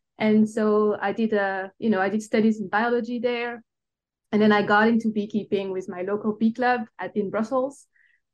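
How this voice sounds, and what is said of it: Belgian accent in English. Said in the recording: “I tell by my accent, I'm not originally from the United States. I actually, I'm originated from Belgium.”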